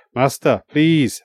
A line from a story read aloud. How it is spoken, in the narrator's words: Aidan croaked